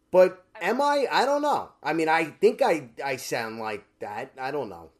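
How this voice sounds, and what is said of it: Brooklyn accent. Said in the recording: “you're absolutely Brooklyn accent for sure.”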